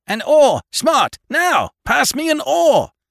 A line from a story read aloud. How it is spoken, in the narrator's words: shouted the captain